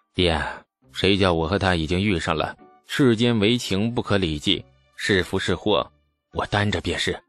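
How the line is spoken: Sighing. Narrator (Chinese): 李素 也叹道

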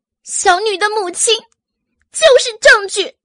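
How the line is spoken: Loud, anguished. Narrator (Chinese): 阮明心仿佛痛苦挣扎，大声的说道

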